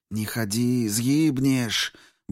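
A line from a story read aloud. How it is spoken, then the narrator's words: Quick whisper. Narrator (Russian): быстро прошептала Даша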